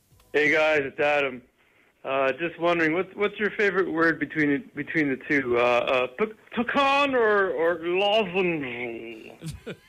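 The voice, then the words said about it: Good imitation of another caller's voice. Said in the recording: “Sounds like it. It's pretty good. It's a really great. Good impression.”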